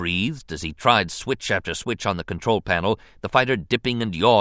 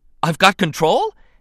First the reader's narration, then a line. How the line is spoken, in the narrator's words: Anakin exclaimed in shock